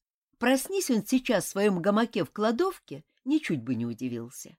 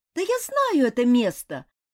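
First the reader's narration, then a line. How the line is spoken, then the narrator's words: Joyful exclamation. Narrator (Russian): радостно воскликнул мотылек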